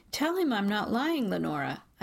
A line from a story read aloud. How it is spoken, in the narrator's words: my voice sliding perilously close to outright begging